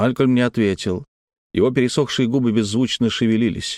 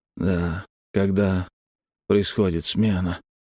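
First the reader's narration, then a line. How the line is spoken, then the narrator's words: Quiet. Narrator (Russian): тихо произнес Малькольм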